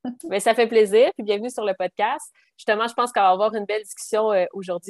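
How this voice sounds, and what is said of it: Singsong regional French accent. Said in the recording (French): “votre magnifique accent, ... il est chantant.”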